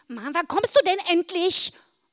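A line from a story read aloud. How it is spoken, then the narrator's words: Called out. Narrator (German): rief sie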